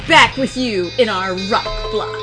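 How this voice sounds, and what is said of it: Radio DJ voice. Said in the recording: “that was my DJ voice.”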